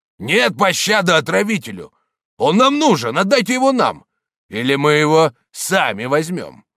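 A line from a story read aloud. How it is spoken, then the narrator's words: Shouting. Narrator (Russian): камнелом закричал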